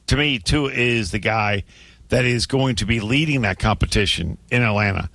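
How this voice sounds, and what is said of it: Strained, failing voice. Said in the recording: “I'm losing my voice. ... your voice is struggling a little bit.”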